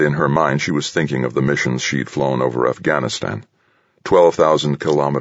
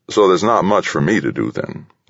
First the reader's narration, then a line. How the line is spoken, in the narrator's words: Lieutenant Sharman said